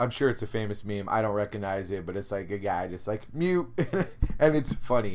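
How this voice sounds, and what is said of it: Usual voice. Nothing is said of it.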